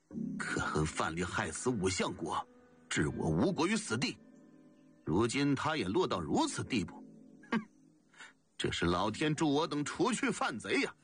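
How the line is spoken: Wild laughter. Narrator (Chinese): 补好 狂笑几声，说

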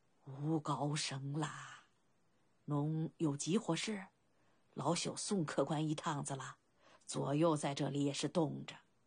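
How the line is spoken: Nervous old man, low voice. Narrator (Chinese): 老人 紧张地 低声道

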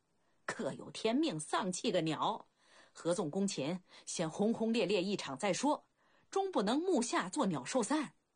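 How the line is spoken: Bursting into laughter. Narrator (Chinese): 孟尝君突然哈哈大笑

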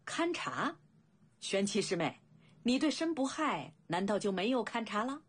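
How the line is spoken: Sneering. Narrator (Chinese): 邓灵子冷笑道

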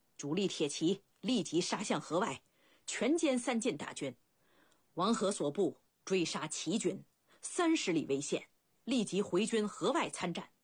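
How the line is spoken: Loud command. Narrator (Chinese): 白起高声下令

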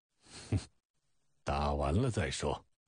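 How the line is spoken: Cold sneer. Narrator (Chinese): 老甘龙冷笑一声

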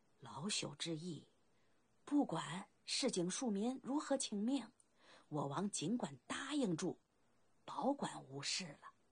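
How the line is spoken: Old servant, low voice. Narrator (Chinese): 老内侍低声道

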